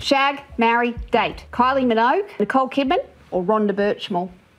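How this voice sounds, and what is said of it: Heavy Australian accent. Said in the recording (Danish): “de meget tunge australiske accenter”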